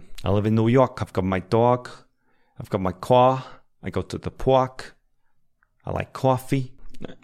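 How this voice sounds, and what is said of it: Put-on New York accent. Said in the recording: “some people say that I can do a good New York accent. ... I need to work on this a little bit.”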